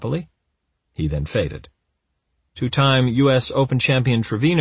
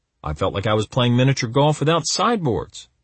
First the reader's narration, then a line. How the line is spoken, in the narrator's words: he grumbled